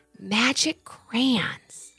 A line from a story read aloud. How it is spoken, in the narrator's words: Levi whispered to himself